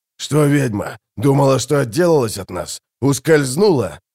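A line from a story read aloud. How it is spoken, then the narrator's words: Growling. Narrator (Russian): прорычал Гурни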